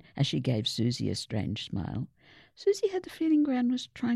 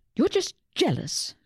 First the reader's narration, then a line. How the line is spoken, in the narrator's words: Susie snapped